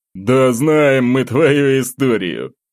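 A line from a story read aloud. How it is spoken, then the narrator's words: Tipsy chuckle. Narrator (Russian): хохотнул малость подвыпивший Александр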